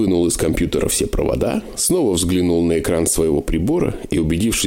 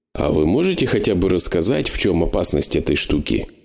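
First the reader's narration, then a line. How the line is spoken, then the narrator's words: Plain. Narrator (Russian): спросил я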